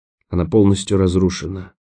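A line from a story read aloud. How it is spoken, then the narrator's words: Whispered. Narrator (Russian): прошептала Роэн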